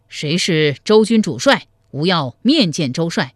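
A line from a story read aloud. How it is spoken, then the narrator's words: Nervous loud call. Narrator (Chinese): 黄埔辉心中发怯，高声叫道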